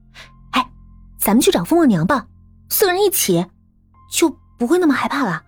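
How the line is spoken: Crying out. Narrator (Chinese): 艾琳也叫了起来

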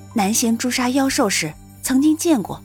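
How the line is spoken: Soft. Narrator (Chinese): 苏玲轻声道

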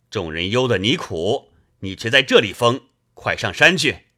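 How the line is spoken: Shouting. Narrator (Chinese): 穆弘叫道

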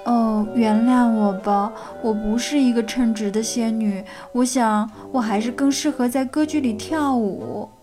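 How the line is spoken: Sighing, apologetic. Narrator (Chinese): 仙女无奈地叹了口气，抱歉地说

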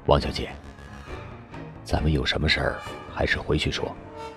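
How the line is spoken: Worried, hushed voice. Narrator (Chinese): 刘从言有点担忧，他压低着嗓子

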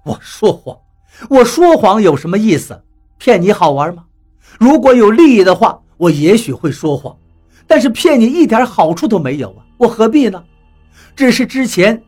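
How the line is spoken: Laughing. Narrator (Chinese): 老毛笑了，说道

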